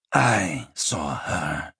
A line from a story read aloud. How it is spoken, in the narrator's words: Priorates rasped